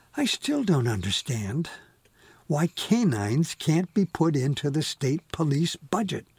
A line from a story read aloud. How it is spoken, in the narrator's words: she sighs